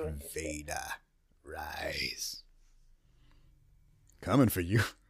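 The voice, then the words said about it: Raspy sinister villain voice. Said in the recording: “When my throat is a little scratchy, my voice is a little bit extra. So I can do all, like, now this is where I can do my Palpatine Lord Vader.”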